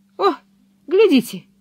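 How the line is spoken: Exclaiming. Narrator (Russian): воскликнул Пеппи

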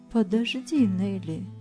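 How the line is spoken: Plain, old woman. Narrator (Russian): сказала старушка

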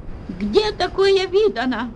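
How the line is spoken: Screaming at full voice. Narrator (Russian): вопила во все горло экономка

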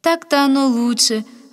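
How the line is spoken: Joyful, pleased. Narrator (Russian): радостно подтвердила довольная женщина

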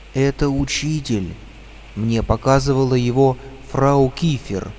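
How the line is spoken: Frightened whisper. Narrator (Russian): испуганно прошептал Гарри

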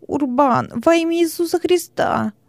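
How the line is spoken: Whimpering. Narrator (Russian): Хилон ... заскулил

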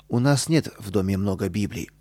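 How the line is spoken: Calm mother. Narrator (Russian): спокойно ответила мама

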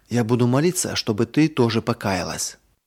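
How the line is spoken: Whispered into ear. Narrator (Russian): Марина прошептала сестренке на ухо

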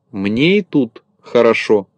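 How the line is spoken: Plain. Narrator (Russian): ответил Незнайка

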